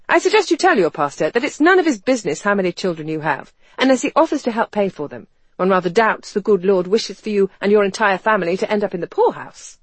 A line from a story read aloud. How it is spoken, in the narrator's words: she found herself saying curtly